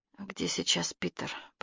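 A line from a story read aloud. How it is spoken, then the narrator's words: Whisper. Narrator (Russian): прошептала она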